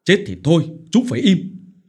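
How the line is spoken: Shouting. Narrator (Vietnamese): Ông Phổ lại quát

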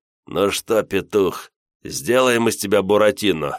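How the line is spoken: Mocking laughter. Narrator (Russian): Посмеявшись над собственной шуткой, авторитет

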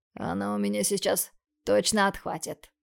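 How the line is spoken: Growl. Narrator (Russian): прорычал Бондарев

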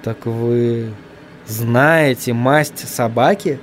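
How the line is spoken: Quiet. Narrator (Russian): тихо промолвил он

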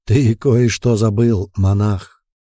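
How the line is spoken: Hoarse voice. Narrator (Russian): хрипло произнес

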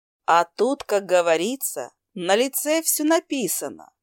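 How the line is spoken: Short laugh. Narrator (Russian): хохотнула я

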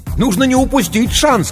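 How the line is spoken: Shouting over phone. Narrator (Russian): кричал в трубку незнакомый голос

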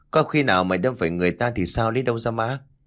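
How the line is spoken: Laughing loudly. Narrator (Vietnamese): Hiểu hít một hơi thuốc rồi cười lớn bảo

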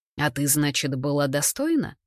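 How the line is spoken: Dry. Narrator (Russian): сухо интересуюсь я

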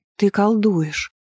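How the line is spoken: Reproachful whisper. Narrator (Russian): прошептала я с укором

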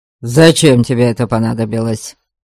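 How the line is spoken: Curt, abrupt question. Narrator (Russian): Отрывисто спросил он

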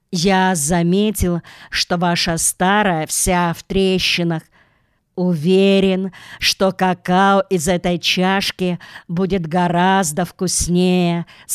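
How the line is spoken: Plain. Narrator (Russian): сказал мистер Крубер

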